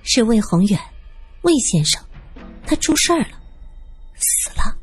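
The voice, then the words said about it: Quiet, hushed voice. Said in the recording (Chinese): “他小声说道”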